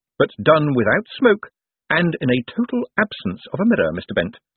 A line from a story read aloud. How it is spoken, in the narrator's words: said Moist cheerfully